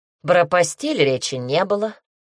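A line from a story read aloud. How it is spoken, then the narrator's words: Snort. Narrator (Russian): хмыкнула Эллен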